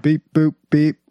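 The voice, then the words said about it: Bad robot voice impression. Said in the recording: “worst robot impersonation”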